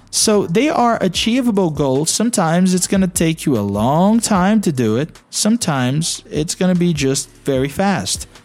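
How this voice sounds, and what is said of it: Brazilian-accented English. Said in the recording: “I do have a Brazilian accent.”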